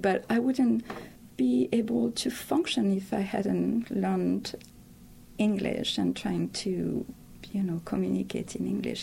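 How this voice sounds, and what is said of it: Thick accent. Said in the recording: “I have this thick accent”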